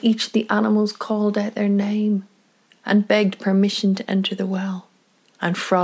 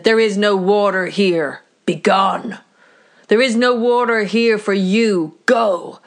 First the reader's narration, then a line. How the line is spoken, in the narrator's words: his voice got louder and louder until finally Sky God could feel the rumble from the volume up above